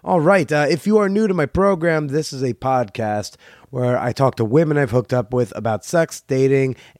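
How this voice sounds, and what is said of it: Slightly raspy, tired-sounding voice. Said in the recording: “my voice sounds a little raspy, a little out of it”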